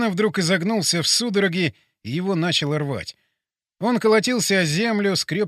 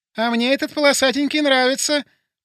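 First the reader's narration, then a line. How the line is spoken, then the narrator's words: Squeaky female voice. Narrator (Russian): пропищал женский голос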